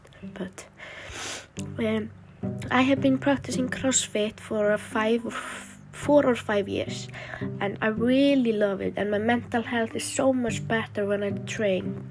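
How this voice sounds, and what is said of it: Unwell-sounding, below-par voice. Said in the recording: “excuse my voice. I have been sick for at least two weeks, so my voice is not the best.”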